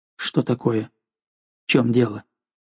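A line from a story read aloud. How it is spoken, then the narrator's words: Quiet, worried question. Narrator (Russian): Взволнованным, но тихим голосом он спросил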